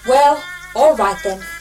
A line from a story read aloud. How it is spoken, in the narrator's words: said the oscillator